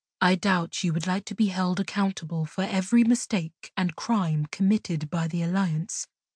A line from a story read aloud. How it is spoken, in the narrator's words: Chandra said in a soothing tone